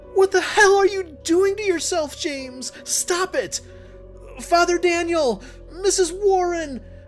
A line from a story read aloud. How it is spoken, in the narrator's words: I screamed in fear